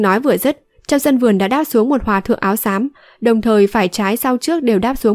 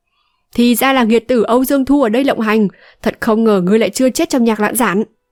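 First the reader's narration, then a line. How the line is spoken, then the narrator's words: Sudden loud laughing voice. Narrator (Vietnamese): Đột nhiên có tiếng cười to vang lên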